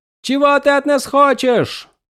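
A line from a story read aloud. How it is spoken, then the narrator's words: Shouted, female. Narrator (Russian): крикнула она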